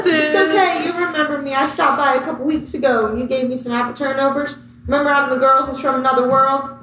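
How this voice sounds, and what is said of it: Speaks with a put-on accent. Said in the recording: “Have you had an accent this entire time? ... it's just when I talk to old ladies”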